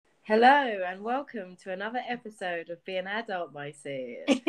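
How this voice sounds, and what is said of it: Put-on accent at the end. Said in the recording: “What was that accent at the end? ... Jazz it up a bit. ... Nice, that's a really good accent.”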